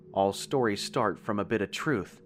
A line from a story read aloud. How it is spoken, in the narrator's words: he said gently